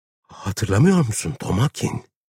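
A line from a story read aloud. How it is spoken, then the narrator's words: Trembling voice. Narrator (Turkish): Titreyen bir sesle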